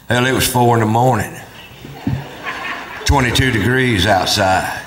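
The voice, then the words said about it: Imitates another person's voice. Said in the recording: “my impression of my cousin Ray after the big kill.”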